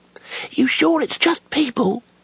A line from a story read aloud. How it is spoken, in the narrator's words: said the youngest wizard nervously